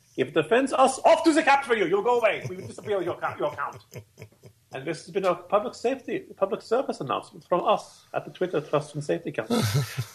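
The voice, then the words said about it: Bad put-on German accent. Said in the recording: “This is my horrible German accent.”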